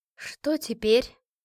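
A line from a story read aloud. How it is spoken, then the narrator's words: Sigh. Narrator (Russian): вздохнула я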